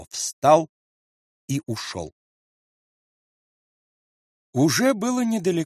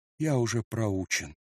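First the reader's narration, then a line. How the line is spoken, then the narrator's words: Mumbling. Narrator (Russian): бормочет Паво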